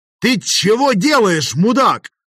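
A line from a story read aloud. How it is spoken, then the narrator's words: Yelling over battle noise. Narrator (Russian): заорал я, стараясь перекрыть грохот боя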